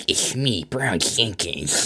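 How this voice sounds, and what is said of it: Weird put-on character voice. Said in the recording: “we even developed this voice for him... this very like weird... great impression”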